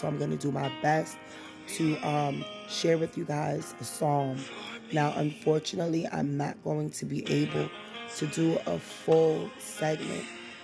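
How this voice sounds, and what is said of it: Sore, strained voice. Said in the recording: “it sounds like I'm struggling a bit ... my voice is a little bit on the sore side”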